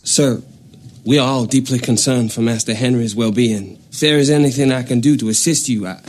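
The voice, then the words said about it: Unconvincing put-on accent, hard to understand. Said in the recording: “This is how bad his accent is ... It's really bad. Like, like to the point where I wasn't sure what he said ... Clearly someone with one accent attempting to do another.”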